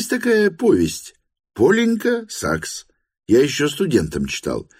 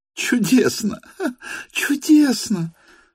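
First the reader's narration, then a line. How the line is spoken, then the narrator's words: Hysterical laughter. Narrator (Russian): истерически рассмеялась Лиза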